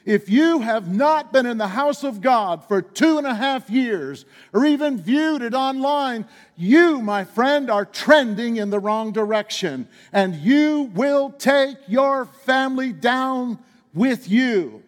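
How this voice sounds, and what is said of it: Upset, heated preaching voice. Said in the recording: “You sound a little upset, ... I am a little upset. I am upset.”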